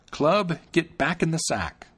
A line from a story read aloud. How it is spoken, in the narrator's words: he cried out